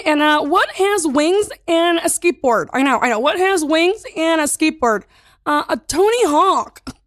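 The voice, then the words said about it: Kathy Griffin impression. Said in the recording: “Can you do it in Kathy Griffin? ... The accent was really great.”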